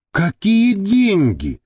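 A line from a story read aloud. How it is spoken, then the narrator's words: Exclaiming, female. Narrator (Russian): воскликнула Маша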